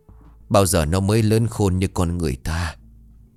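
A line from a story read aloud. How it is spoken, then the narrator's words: Old man sighing. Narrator (Vietnamese): lão Tân thở dài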